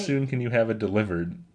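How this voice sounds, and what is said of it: Imitates another person's voice. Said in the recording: “I don't know why I'm trying to do her voice.”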